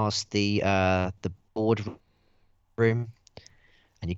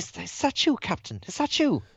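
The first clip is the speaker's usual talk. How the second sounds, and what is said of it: Irish accent. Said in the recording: “an Irish accent”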